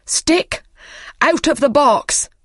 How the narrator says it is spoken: he cried

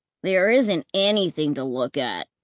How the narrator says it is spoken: Clay grumbled

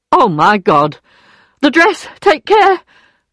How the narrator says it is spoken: cried Madame Lefrançois

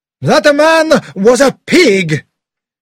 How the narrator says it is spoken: cried as he left the carriage

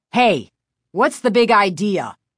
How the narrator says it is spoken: her father asked angrily

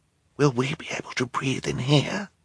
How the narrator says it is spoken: Violet asked Klaus as quietly as she could

